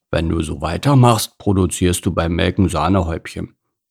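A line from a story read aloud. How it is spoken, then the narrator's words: Grumbling workhorse. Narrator (German): brummte Alois der Ackergaul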